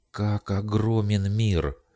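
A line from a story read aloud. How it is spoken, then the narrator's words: Exclaimed. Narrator (Russian): воскликнула Ава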